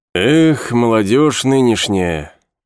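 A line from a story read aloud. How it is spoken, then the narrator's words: Sigh. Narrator (Russian): вздохнул Друс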